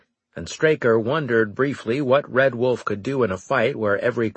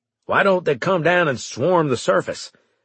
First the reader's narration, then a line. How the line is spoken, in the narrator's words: Red Wolf asked